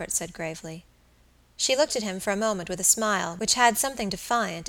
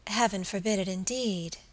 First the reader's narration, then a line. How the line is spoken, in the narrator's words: she murmured